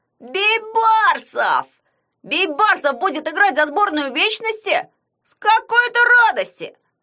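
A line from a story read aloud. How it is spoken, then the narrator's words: Yelling. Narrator (Russian): завопил он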